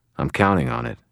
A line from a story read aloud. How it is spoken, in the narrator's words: I said